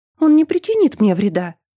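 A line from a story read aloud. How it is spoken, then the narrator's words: Shouting. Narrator (Russian): крикнула я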